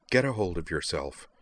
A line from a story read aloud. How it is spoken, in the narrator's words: she commanded him, her voice quiet but firm